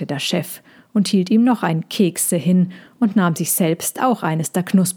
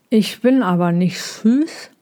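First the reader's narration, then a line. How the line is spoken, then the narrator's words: Mumbling through crumbs. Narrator (German): nuschelte Tommy durch die Brösel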